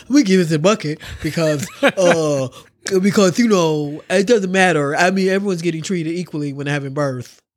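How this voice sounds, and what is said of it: Imitates another person's voice. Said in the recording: “That horrendous impersonation.”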